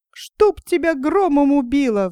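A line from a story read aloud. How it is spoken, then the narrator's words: Fox's shriek. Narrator (Russian): взвизгнула лиса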